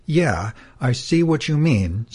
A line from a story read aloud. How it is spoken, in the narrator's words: sighed Horus